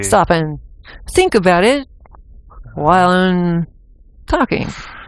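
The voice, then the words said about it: Halting Captain Kirk-style pauses. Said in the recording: “James Kirking. ... pretty good example of James Kirking ... as you're doing an impression”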